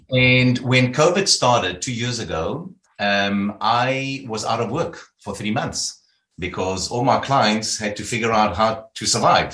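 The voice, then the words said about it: South African accent. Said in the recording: “I started off in South Africa. You'll hear about my accent.”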